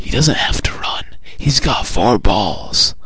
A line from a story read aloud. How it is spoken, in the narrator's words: Our friendly fan, sensing his embarrassment, whispers